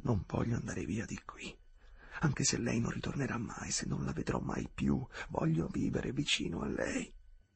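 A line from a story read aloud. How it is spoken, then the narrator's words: Ardent whisper. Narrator (Italian): sussurrò ardentemente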